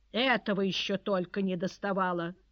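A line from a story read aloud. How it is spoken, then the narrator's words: Harsh irritated voice. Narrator (Russian): жестким раздраженным голосом произнес сенатор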